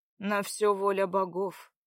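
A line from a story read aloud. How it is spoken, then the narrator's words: Muffled, hollow reply. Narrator (Russian): глухо ответил Братмир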